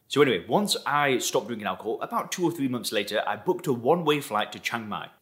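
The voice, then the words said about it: Lancashire northwest English accent. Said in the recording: “where's my accent from? I actually come from Lancashire in the northwest of England.”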